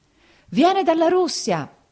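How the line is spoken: Crowd howling like wounded beasts. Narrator (Italian): esclamarono tutti urlando come belve ferite

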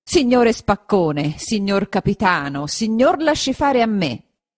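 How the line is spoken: Speaking or shouting. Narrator (Italian): gli disse o gli gridò

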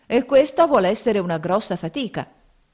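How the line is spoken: Grumbling. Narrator (Italian): brontolavano

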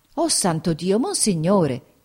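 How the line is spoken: Exclaimed. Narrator (Italian): esclamò Peppe

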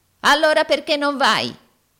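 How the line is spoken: Yelling. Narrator (Italian): urlò Arturo

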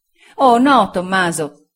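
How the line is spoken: Exclaiming. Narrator (Italian): esclamò Sofia

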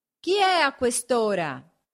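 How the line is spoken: Shout from a window. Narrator (Italian): gridò una voce dalla finestra

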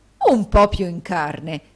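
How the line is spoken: Horrified exclamation. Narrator (Italian): esclamò il direttore con orrore

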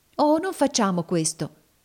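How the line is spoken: Exclaimed. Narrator (Italian): esclamò Emmelina

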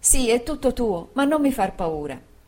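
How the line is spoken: Exclamation. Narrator (Italian): esclamò Dora

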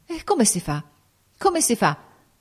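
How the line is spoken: Flustered stammering. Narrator (Italian): balbettava egli in preda a una confusione straordinaria

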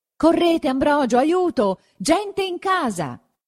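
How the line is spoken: Shouted. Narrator (Italian): gridò verso lui don Abbondio

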